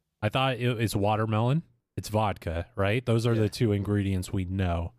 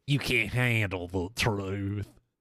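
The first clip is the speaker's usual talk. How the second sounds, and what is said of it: Imitates another person's voice. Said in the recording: “his fucking Jack Nicholson impression ... That's my Jack Nicholson.”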